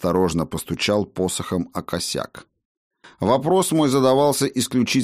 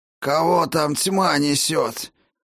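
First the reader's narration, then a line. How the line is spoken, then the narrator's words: Hoarse, weak female voice. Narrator (Russian): Ответил мне хриплый и слабый голос, лишь отдаленно напоминающий женский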